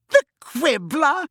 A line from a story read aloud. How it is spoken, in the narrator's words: she said, cackling